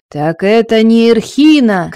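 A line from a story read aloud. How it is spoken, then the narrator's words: Shouting. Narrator (Russian): кричал Торвард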